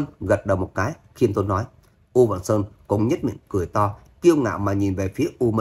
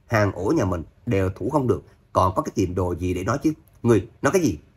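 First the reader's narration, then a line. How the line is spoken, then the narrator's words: Angry loud shout. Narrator (Vietnamese): U Vạn Sơn giận dữ quát lớn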